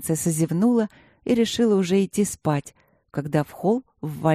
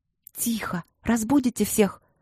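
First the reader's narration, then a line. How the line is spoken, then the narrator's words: Hissed. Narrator (Russian): шипела Алина на семикурсников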